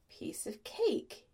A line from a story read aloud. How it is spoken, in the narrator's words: he muttered